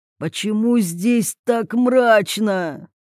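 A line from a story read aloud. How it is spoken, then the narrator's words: Moaning. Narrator (Russian): простонал Владимир Васильевич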